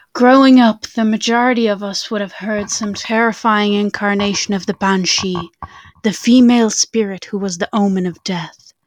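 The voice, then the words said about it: Spooky storytelling voice. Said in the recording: “Let me prepare my spooky voice.”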